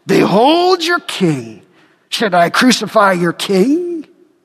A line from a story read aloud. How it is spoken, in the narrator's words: Pilate mocks